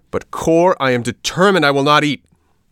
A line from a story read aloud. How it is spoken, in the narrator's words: shouted the puppet, turning on him like a viper